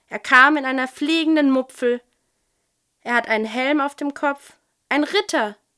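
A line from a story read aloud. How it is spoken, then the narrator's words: Excited call. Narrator (German): rief Wutz begeistert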